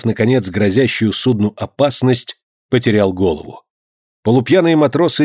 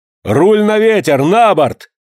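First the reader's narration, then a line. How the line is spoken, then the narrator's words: Shouted. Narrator (Russian): крикнул Джон Манглс Вильсону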